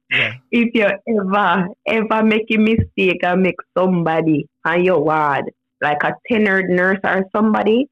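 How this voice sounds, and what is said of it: Jamaican-accented English. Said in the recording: “speak Jamaican”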